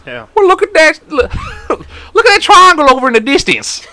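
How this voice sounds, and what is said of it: Put-on redneck accent. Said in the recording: “I'm always doing like a redneck fucking accent”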